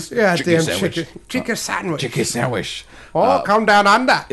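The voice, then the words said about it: Poor put-on Australian accent. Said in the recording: “That's almost a very Big Timmy Australian accent ... That's almost Irish Australian ... accent abilities are ... Limited at best ... but laughable”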